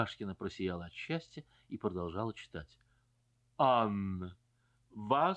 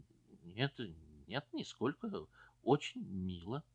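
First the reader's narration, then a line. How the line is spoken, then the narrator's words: Embarrassed, guilty tone. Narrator (Russian): Он сконфузился и сказал таким виноватым тоном, как будто не барыня, а он сам написал этот монолог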